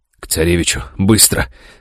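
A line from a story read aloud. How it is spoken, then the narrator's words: Rasping. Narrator (Russian): прохрипел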